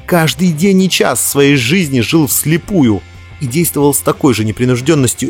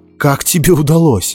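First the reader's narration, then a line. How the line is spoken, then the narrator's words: Strained, forced out. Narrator (Russian): выдавил из себя Дзирт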